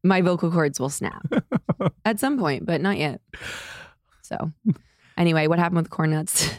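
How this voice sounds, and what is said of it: Raspy hoarse voice with vocal fry. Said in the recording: “my voice... This is how I sound now. I think it's temporary... It's Janis Joplin... I'm bringing rasp to the pod... Vocal fry with rasp”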